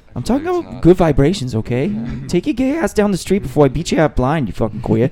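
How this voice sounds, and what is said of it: Imitates another person's voice. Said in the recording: “doing an impersonation of Mark Wahlberg or an impersonation of Andy Samberg doing an impersonation of Mark Wahlberg”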